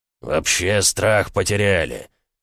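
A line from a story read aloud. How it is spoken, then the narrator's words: Growling baron. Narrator (Russian): зарычал барон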